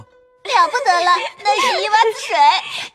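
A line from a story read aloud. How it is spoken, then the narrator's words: Laughing crowd. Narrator (Chinese): 众人拍手笑说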